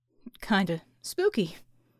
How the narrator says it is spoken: said with a nervous laugh

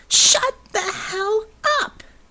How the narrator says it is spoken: She shrieked

